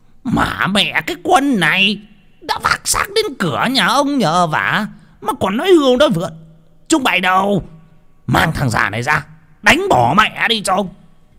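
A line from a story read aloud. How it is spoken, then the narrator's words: Hissing. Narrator (Vietnamese): Lý Đảm rít lên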